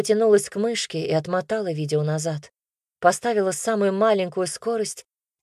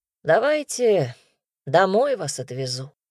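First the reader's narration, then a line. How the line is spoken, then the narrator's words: Said wearily. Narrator (Russian): устало проговорил Игорь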